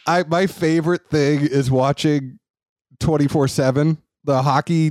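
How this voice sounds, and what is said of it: Usual voice. Nothing is said of it.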